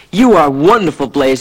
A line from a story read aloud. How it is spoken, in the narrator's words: cried